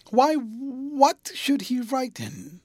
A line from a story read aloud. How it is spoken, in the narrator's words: he exclaimed